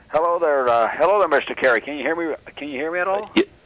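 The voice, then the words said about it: Northern Ontario Canadian accent. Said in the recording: “I recognize that Ontario accent ... you're recognizing the northern Ontario accent”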